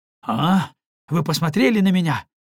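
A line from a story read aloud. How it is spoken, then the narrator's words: Exclaimed. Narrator (Russian): воскликнул незнакомец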